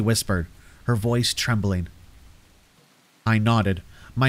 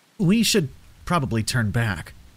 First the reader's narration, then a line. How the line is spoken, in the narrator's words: I suggested, trying to keep my voice steady